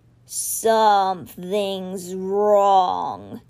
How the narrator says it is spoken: he growled

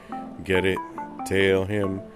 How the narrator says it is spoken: Yamcha laughed

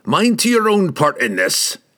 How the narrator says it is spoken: Brunner snorted, suddenly the snarling leader once more

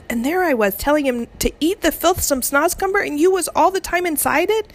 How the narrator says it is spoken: the BFG cried

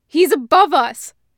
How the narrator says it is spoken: she shouts

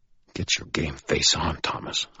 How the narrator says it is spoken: I snarled to myself

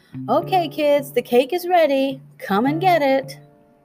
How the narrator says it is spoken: Hennessy called out

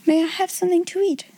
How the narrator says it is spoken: Sarah asked rather faintly

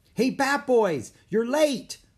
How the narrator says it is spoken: Someone shouted

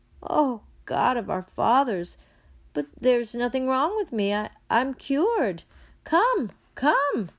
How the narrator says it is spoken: the old woman cries out

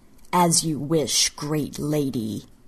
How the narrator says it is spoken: he sneered

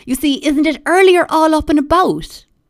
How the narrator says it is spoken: Jane Lohan said excitedly, to no one in particular

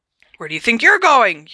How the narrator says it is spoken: yelled Uncle Vernon

